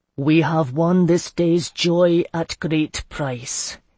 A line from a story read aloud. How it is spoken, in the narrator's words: said solemnly